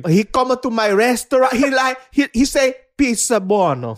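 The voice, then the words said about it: Put-on Italian accent. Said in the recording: “Your Italian accent.”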